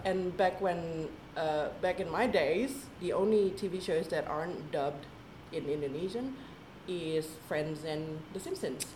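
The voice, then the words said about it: American accent. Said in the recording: “You've got this accent ... why do I have an American accent?”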